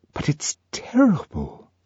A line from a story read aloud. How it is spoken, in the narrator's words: Lenina whispered